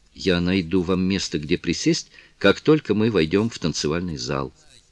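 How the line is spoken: Whisper. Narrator (Russian): прошептала Кларинда

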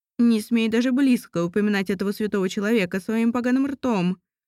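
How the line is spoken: Angry bark. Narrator (Russian): рявкнула Светлана Петровна

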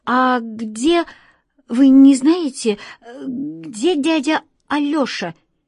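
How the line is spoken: Stammering question. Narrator (Russian): Немного заикаясь, спросил

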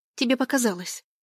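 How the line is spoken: Too sharp reply. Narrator (Russian): Слишком резко ответила я

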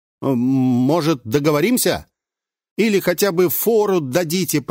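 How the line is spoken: Shouted down from above. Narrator (Russian): прокричал я сверху вниз

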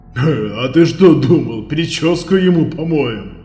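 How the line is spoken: Chuckling. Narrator (Russian): Хохотнул Химка Прокопов

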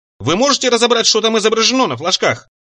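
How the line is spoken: Shouted upward. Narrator (Russian): задрав голову, крикнул

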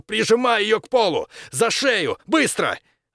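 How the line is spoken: Shouting. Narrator (Russian): крикнул другу

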